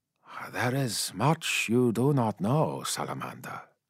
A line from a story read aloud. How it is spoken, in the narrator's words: said Yasugai softly